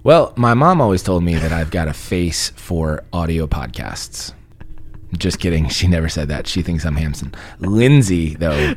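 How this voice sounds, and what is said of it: Raspy, sniffly voice. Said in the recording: “I've been sniffly ... my voice is a little raspy”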